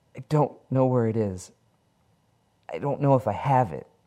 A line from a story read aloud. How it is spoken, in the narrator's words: Harry whimpers